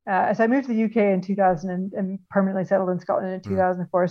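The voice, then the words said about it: Canadian accent. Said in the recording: “I'm told by everyone I know in Scotland that I still sound really Canadian.”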